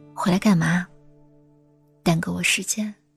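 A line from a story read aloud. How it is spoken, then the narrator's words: Flat, indifferent. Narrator (Chinese): 他就会淡淡的说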